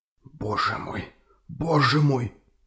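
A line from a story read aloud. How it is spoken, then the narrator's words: Silent whisper, trembling lips. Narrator (Russian): беззвучно шептал капитан трясущимися губами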